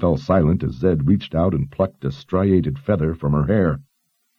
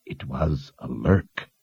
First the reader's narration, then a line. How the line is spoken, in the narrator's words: the wizard murmured